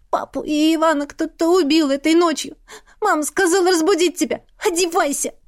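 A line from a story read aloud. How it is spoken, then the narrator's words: Loud sob, then speaking. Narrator (Russian): Она громко всхлипнула и сказала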